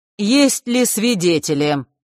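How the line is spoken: Loud question, councillor. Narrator (Russian): громко вопросил советник

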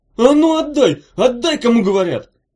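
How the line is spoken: Yelling. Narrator (Russian): завопил Чемоданов

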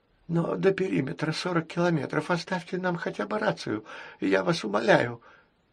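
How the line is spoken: Lisping plea. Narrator (Russian): пришептывая, попросил Альберт

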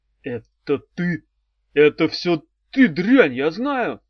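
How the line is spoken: Growling. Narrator (Russian): зарычал он

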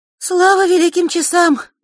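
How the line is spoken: Relieved exhale. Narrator (Russian): облегченно выдохнула Диана

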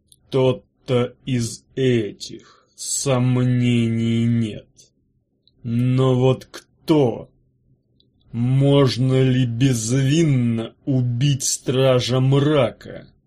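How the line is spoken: Through gritted teeth. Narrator (Russian): процедил Арей

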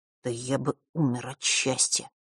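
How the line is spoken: Quiet, curt. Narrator (Russian): тихо бросил он

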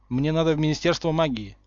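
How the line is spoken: Matter-of-fact tone. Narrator (Russian): сказал Гарри будничным тоном

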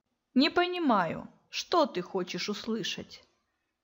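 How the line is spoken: Cold. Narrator (Russian): Холодно произнес он

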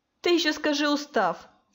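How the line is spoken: Snorting. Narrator (Russian): фыркнула Диана

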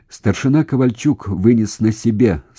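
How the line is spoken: Plain. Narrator (Russian): сказал уполномоченный

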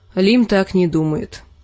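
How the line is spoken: Gloomy. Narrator (Russian): мрачно сказала Арья

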